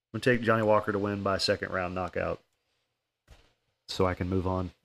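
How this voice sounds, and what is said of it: Tired-sounding voice. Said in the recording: “sorry if I sound tired, man. I've been working on roofs all day today.”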